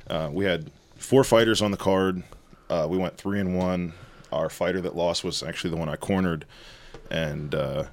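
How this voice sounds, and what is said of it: Strained, worn-out voice. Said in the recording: “my voice is kind of fucked up, because I was yelling at the top of my lungs yesterday”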